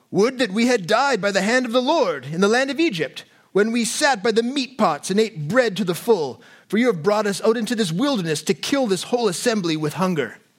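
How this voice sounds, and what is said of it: Put-on British-style theatrical accent. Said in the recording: “That's my accent. That's my Israelite accent. ... It's like Masterpiece Theater where everyone's in British accents.”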